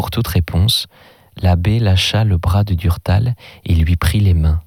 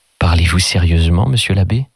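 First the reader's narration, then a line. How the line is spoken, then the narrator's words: Exclaiming. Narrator (French): Durtal s'écria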